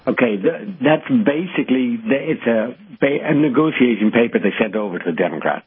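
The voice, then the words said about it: Irish accent. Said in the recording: “I hear that Irish voice ... I knew I detected an accent there”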